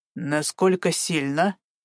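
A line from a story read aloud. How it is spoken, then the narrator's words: Ingratiating question. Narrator (Russian): вкрадчиво поинтересовался Гарик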